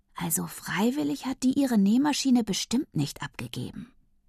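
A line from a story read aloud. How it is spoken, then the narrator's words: Whispering. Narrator (German): flüstert mir ins Ohr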